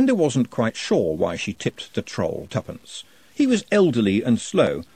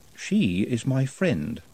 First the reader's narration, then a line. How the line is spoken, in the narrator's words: said Nutt calmly